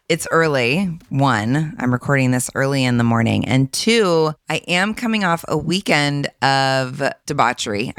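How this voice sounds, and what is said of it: Husky, worn voice. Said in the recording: “my voice might be a little more on the husky side today ... it's kind of taken a toll on my voice ... this husky ... sound”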